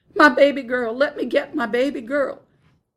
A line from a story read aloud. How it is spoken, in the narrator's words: over all of them I heard Laura's fierce cries